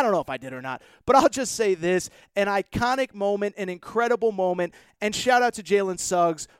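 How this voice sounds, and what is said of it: Usual voice. Nothing is said of it.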